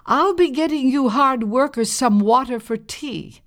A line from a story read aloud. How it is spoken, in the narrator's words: called out